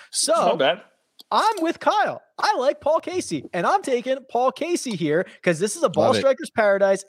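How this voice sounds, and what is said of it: Voice rises to high pitch. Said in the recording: “why did your voice raise so high when you said Paul Casey right there?”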